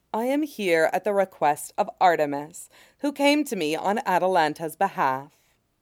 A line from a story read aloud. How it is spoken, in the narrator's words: says gently